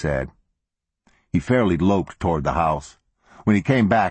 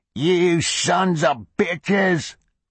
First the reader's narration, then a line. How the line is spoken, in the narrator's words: croaked Ballard